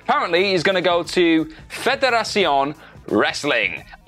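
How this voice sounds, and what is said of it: Poor Mexican Spanish accent attempt. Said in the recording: “my Mexican / Spanish accent is terrible”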